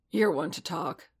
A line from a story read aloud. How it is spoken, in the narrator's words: Paz grunted back